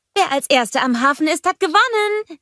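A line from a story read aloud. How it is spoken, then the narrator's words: Calling back. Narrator (German): rief Anna zurück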